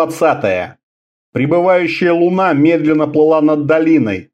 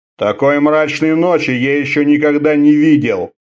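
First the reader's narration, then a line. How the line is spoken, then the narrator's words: Grumbling. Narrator (Russian): ворчал Орда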